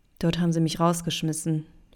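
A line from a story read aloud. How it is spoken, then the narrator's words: Quiet addition. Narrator (German): fügte Toni leise hinzu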